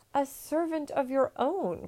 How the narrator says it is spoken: cried the emperor

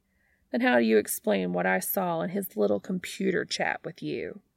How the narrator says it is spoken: Pam scoffs

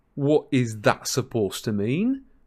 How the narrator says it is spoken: said Ron indignantly

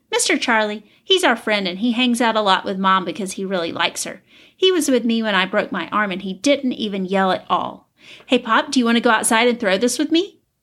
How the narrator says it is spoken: Doug chuckled

